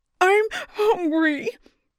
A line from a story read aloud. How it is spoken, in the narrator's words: said, and then repeated himself again and again until it ended on a howl